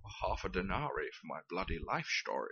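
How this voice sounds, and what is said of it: Sean Connery impression, slipping toward Billy Connolly. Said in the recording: “the accent's a bit out ... It's the tone of voice. Sean Connery doesn't do outrage ... I went a bit Billy Connolly.”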